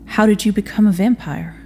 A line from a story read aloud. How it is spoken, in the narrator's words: Samson sighed with a weight that was far too heavy